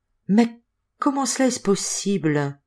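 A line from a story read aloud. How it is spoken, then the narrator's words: Stunned murmur. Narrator (French): murmura Elmifaza, si esbrouffée par la nouvelle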